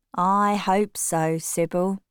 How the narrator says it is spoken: James said slowly

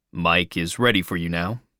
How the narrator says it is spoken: he said

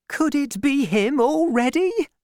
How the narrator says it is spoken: cried Madame Bonacieux

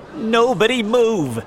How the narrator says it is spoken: shouted the police officer

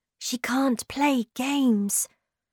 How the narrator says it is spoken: said Moomin Troll quietly

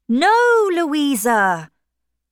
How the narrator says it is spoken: shouted Captain Wentworth

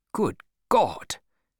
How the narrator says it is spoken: cried the English captain

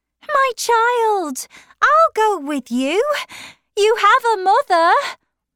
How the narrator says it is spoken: shouted Mrs

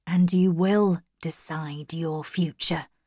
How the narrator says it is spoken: said quietly

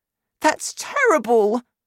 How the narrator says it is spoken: Sophie cried

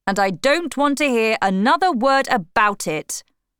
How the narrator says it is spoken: shouted Father

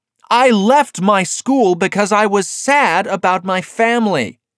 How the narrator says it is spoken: Eliza shouted

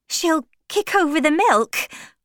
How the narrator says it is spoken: cried Tess, trying to get free

